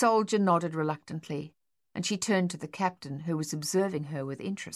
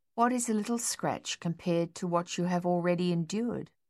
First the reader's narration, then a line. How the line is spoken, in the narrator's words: reminded him kindly